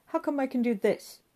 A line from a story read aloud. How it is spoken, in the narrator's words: Giggles